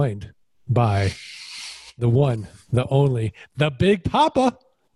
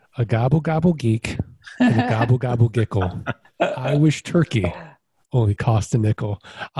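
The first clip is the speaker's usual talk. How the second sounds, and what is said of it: Put-on Boston accent. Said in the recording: “that beautiful Boston accent”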